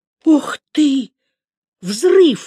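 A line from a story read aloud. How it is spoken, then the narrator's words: Excited exclamation. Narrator (Russian): воскликнул, разволновавшись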